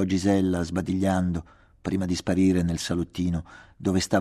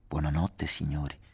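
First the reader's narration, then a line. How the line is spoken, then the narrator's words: Respectful whisper. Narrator (Italian): bisbigliò rispettosamente la tenutaria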